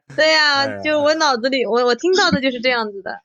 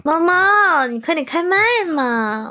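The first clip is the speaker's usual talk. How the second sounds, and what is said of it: Exaggerated coquettish whiny voice. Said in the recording (Chinese): “大型直男撒娇现场...我有这么嗲吗？”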